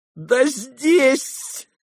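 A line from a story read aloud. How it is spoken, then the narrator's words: Sudden laugh. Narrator (Russian): засмеялся вдруг Лебедев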